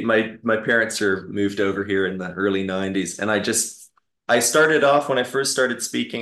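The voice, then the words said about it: Canadian accent. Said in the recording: “Canadian accent”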